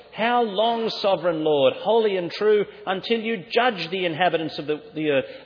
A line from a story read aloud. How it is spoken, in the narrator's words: They are screaming for justice